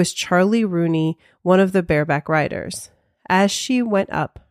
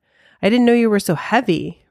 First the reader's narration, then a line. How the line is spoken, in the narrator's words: Rooney panted